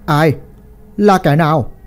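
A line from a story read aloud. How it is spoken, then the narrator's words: Loud shout. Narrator (Vietnamese): Lão quát lớn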